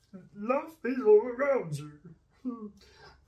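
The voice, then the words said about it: Sings in a Mr. Bean character voice. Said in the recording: “your impression ... I'm going to say Mr. Bean”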